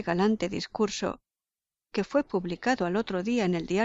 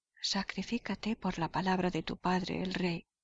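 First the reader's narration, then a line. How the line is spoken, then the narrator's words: Quiet voice. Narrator (Spanish): le dijo en voz baja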